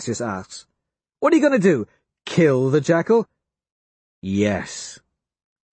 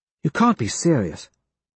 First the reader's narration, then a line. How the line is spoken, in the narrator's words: Quinn says, quietly